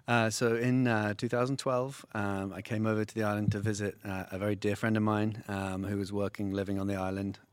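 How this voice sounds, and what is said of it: English accent. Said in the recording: “based on that accent, you're not from around here... no, you're from England.”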